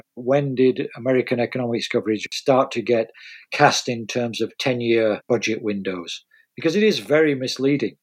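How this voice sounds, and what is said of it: British accent. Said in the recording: “as you can probably tell from my accent, I come from the UK”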